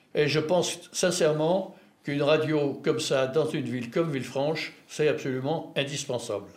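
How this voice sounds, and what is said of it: French with strong English accent. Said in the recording (French): “mon épouvantable accent anglais”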